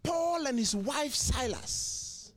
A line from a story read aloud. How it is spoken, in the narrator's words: A pastor was preaching powerfully and shouting